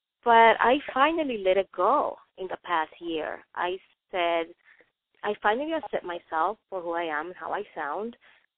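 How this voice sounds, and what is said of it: Non-native English accent. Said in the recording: “I have an accent when I speak English ... That's my accent”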